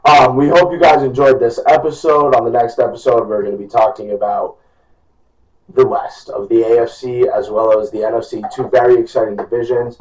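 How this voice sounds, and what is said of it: Hoarse, strained voice. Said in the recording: “Sorry I'm losing my voice.”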